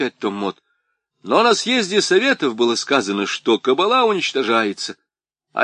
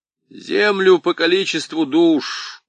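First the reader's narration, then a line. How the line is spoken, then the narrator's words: Dejected voice. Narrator (Russian): упавшим голосом ответил Том Мот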